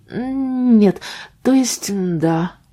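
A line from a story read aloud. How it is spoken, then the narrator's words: Uncertain. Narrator (Russian): произнесла неуверенно Кейти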